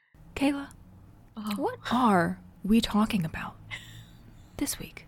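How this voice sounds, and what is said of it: NPR-style radio host voice. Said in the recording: “my NPR voice ... that was really more of an imitation of that girl on TikTok”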